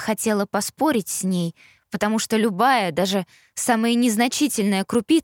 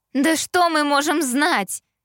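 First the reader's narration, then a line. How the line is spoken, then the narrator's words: Cheerleader exclaiming. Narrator (Russian): воскликнула черлидерша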